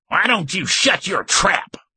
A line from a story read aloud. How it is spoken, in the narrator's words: Garth barked